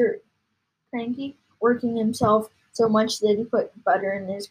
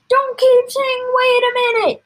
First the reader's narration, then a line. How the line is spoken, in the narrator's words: shouted Mr